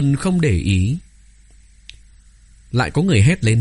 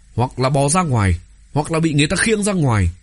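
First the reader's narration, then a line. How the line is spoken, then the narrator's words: Angry shout. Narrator (Vietnamese): Có người tức giận không kìm được, hét lên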